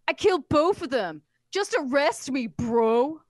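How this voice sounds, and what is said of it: Dumb bro dude voice. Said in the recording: “That's how I imagine he speaks. ... I want him to just be a Kyle bro dude.”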